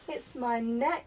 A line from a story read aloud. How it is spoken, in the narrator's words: said the giraffe